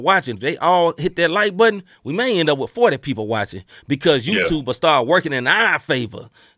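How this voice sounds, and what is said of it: Preacher-style voice. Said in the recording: “preacher voice”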